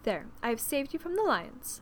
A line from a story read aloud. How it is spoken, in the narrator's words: said she